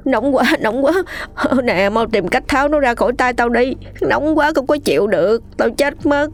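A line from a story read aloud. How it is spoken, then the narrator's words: Ceaseless wailing in pain. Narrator (Vietnamese): Miệng hắn không ngừng kêu gào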